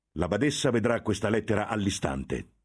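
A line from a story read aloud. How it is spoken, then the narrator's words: Thundering voice. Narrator (Italian): tuonò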